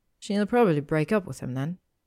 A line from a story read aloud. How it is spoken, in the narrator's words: Hermione said sadly